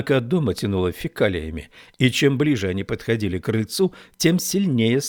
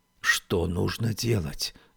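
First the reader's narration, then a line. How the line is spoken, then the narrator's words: Whispered question. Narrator (Russian): спросила Феба шепотом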